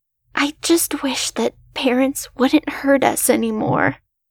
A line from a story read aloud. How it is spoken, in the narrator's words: I whispered